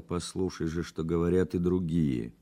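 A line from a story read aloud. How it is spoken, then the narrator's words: Said quietly. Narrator (Russian): тихо сказал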